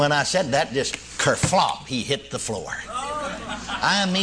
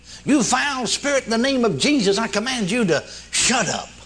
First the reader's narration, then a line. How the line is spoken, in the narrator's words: finally, in desperation, cried out